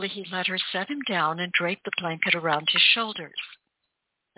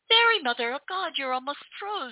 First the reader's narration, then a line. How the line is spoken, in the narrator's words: she cried